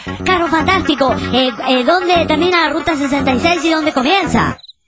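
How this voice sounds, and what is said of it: Child's voice. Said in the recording (Spanish): “con su voz de niño”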